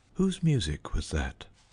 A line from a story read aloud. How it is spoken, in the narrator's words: I whispered to the sacristan